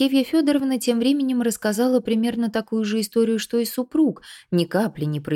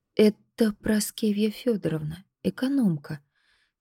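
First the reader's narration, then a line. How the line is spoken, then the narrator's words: Quiet explanation. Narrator (Russian): тихо пояснила Надя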